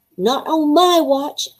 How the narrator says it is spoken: I roared

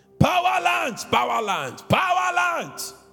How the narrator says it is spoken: At the top of my lungs, I yelled

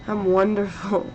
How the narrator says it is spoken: Jason slurred

